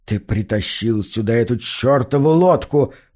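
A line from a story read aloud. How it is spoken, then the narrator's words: Angry hiss. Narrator (Russian): прошипел мэр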